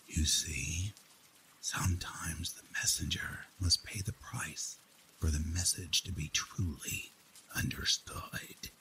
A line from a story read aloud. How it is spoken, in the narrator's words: The serial killer smiled once more ... and whispered